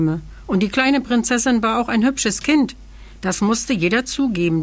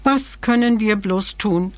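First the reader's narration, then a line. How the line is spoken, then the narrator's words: Sighing queen. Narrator (German): seufzte die Königin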